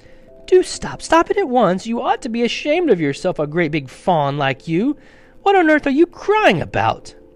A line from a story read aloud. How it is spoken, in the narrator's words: Oh, sobbed Mr